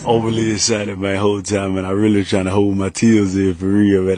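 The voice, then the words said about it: Strong regional accent. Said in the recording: “Your accent has garnered a lot of attention. ... how much people really love it?”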